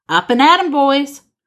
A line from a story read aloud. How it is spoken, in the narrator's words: grins, shouts